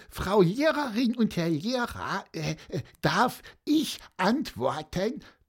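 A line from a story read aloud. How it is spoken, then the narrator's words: Squeaky voice. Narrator (German): piepste Pieper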